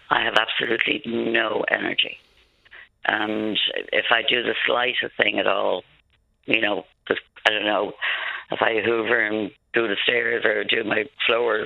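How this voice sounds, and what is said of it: Damaged, altered-sounding voice. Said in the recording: “As you can hear by my voice didn't always sound like this either. I presume that was from the tube going down.”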